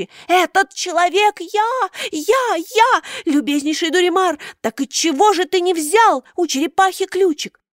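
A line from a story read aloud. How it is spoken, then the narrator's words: Screaming at full volume. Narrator (Russian): Карабас-Барабас завопил, что есть мочи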